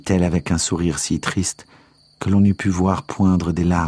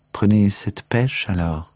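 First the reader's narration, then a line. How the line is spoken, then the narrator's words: Plain. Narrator (French): dit-elle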